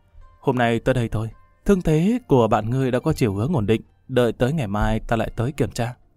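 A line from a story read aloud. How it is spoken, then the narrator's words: Soft young woman. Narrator (Vietnamese): thiếu nữ Đột Quyết đột nhiên khẽ nói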